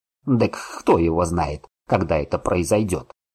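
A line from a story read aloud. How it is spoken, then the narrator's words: Old man snorting. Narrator (Russian): фыркнул дед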